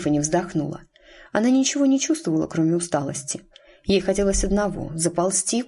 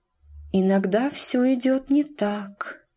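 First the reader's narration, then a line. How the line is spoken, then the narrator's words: Dreamy voice. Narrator (Russian): проговорила она мечтательным голосом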